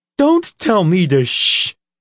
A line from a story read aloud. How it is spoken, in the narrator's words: Nathan said, raising his voice